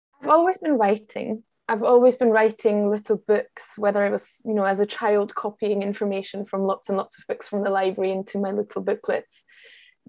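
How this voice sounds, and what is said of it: Scottish (Glasgow) accent. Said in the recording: “Despite the accent, you are you sound very, very Scottish. ... moved to Glasgow eight years ago and have taken on the accent that I'm surrounded by every single day.”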